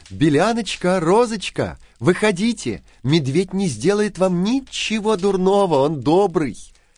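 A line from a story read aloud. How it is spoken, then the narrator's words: Shouted. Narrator (Russian): она крикнула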